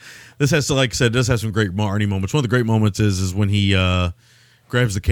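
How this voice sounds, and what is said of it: Usual voice. Nothing is said of it.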